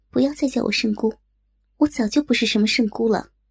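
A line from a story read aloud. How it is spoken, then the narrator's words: Cold. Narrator (Chinese): 冷冷道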